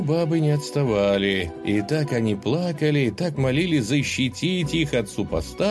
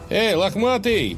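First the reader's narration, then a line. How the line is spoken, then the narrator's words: Defiant shout. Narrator (Russian): с вызовом крикнул богатырь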